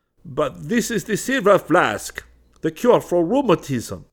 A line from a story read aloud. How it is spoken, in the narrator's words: exclaimed the Arab